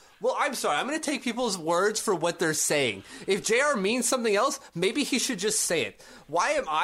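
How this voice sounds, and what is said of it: Usual voice. Nothing is said of it.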